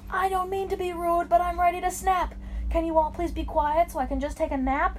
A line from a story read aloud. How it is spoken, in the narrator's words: He had yelled it so loudly it was heard sea to sea, from the deepest of valleys to the tallest of trees